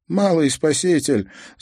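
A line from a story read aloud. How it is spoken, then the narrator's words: Laughing, uncle. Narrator (Russian): засмеялся дядя Иосип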